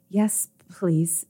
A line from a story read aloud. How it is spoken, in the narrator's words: Albus whimpered, desperate for the pain and pleasure of the Maitre's retribution